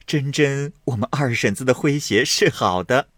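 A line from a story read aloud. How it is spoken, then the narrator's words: Laughing. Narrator (Chinese): 李公才笑向宝钗道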